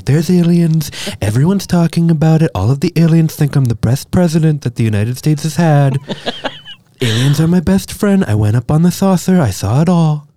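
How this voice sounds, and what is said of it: Imitates another person's voice. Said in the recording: “you do a very good impression.”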